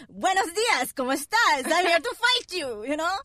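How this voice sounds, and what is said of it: Bad put-on Colombian accent. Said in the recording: “I have a bad Colombian accent”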